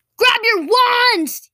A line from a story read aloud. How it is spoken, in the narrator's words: yelled Zarius